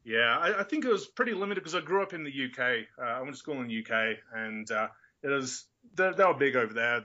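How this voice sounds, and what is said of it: Mixed Australian, English, American accent. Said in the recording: “I'm kind of a mutt at the minute ... I've got the Australian, the English, and the American all merging together.”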